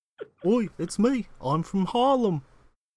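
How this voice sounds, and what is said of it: Put-on Brooklyn accent. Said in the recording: “Slipping into a Brooklyn accent at the end there”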